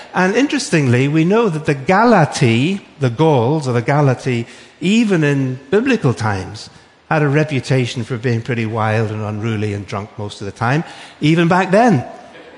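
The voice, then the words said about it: Northern Irish accent. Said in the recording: “You might have wondered what the accent is. It's actually from Northern Ireland. ... I'm not English, I'm Irish.”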